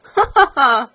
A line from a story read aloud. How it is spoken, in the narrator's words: laughed the queen, louder than before